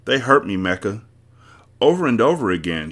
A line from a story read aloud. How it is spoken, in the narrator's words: cried